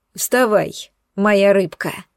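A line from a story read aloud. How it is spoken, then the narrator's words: Mocking rumble. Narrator (Russian): Насмешливо пророкотала моя постель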